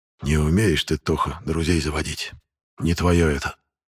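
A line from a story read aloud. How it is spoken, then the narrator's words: Smiling whisper. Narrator (Russian): шепнул мне тень, все еще улыбаясь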